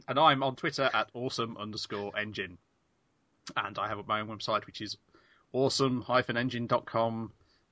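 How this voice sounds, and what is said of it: Hoarse, fading voice. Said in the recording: “I'm losing my voice. Excuse me, I have to have a cough.”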